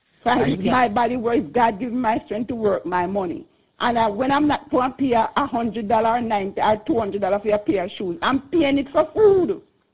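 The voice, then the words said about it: Passionate, emphatic speech. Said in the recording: “I can hear the passion in your voice.”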